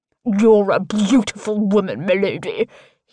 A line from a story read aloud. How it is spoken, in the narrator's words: he slurs